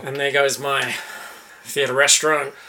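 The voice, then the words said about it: Sad, deflated tone. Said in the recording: “You sound like a sad sack.”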